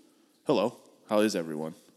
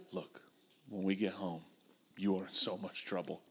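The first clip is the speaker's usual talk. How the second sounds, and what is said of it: Hushed whispery inside voice. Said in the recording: “An NPR voice is just a whisper. It's an inside voice. ... That's the NPR voice.”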